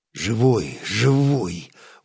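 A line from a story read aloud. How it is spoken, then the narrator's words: Grumbled. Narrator (Russian): буркнул Стас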